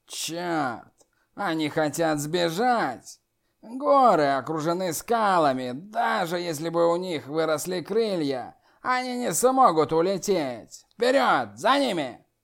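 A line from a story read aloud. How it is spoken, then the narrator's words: Demon's growl. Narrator (Russian): прорычал черный демон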